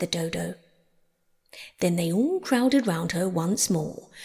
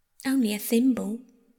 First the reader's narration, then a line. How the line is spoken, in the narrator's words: said Alice sadly